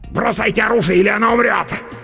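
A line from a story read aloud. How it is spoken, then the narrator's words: Snarling desperate shout. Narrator (Russian): Оскалившись, крикнул чернокнижник с решимостью загнанной в угол крысы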